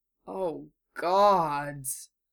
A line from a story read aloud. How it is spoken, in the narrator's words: Harry moaned